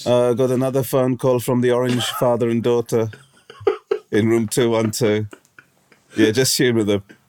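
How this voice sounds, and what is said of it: Vague mid-European put-on accent. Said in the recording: “I'm not sure what accent I was doing there, actually. ... I wanted to go for Spanish ... sort of sounded like some sort of interrogator ... I think what you sounded was European ... sort of mid-European”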